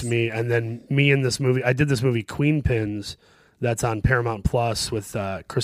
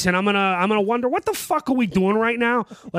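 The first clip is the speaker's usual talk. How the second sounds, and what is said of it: Dennis Farina Midwestern accent impression. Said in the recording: “I'm doing this Dennis Farina accent, this character actor Dennis Farina from the Midwest”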